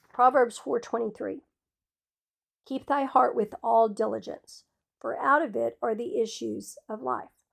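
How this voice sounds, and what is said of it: Rough, strained voice. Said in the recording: “I am sorry my voice is so bad, y'all.”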